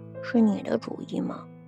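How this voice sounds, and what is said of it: Quiet mumbling. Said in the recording (Chinese): “小声的嘟囔”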